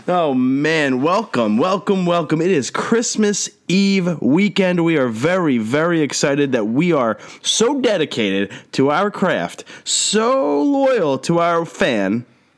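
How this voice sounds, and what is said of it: Slightly nasal, congested voice. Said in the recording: “I'm a little under the weather, so I apologize if my voice is a little nasally”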